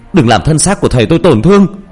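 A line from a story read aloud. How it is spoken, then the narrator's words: Screaming. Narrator (Vietnamese): Tôi gào lên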